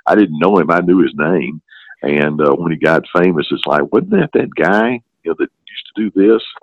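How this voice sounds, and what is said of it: Regional accent. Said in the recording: “I do get quite a few comments about my accent ... you talk just like Dr. Phil ... he grew up in the same general area as I did”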